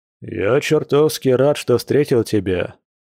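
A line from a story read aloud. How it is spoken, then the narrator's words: Deep bass voice. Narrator (Russian): пробасил Борис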